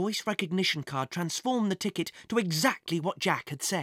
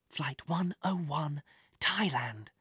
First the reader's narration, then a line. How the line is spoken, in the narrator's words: Jack whispered